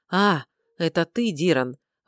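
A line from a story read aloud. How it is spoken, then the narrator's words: Sighing. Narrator (Russian): вздохнул Рыжий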